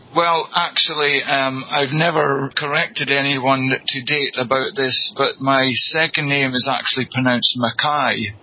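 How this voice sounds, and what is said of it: UK accent. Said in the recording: “from your home in the UK. And you've got just a great accent.”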